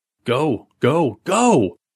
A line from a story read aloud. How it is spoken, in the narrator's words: Billy shouted